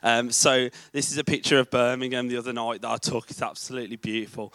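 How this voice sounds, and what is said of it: Birmingham English accent. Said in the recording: “As you can tell from my accent, I am from Birmingham”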